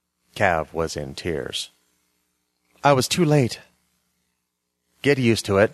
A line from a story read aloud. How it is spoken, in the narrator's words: I said stiffly